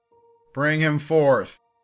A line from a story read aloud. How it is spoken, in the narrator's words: Robert bellowed